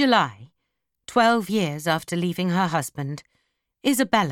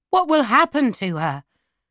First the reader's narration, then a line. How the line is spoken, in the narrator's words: I shouted